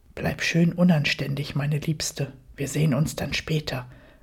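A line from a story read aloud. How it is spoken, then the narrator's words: Murmured aside. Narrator (German): raunte mir mein Mann zu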